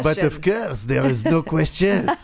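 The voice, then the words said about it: Put-on French accent. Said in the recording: “you could do voiceovers. ... My French accent, yeah. I can't do British one for the life of me, but I can do French.”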